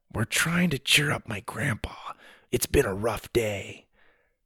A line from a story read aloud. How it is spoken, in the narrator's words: Sawyer leaned closer to the man and whispered